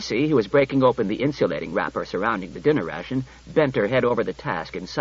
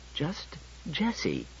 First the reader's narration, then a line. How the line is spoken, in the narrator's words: she said tightly